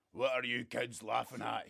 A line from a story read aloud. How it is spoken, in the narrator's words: he grumbles